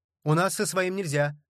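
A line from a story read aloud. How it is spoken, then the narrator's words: Shouting bartender. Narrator (Russian): крикнул бармен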